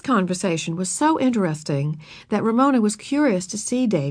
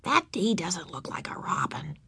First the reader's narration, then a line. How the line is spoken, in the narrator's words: she whispered